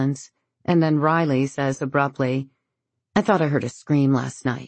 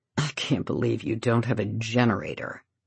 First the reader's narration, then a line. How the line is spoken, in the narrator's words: he mutters